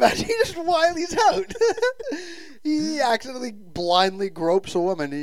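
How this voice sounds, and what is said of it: Usual voice. Nothing is said of it.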